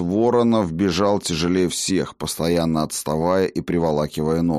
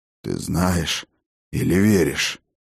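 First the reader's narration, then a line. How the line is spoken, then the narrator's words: Heavy exhale. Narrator (Russian): тяжело выдохнул отец дружин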